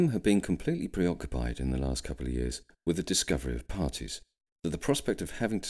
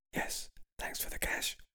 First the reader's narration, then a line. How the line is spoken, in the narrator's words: William whispered back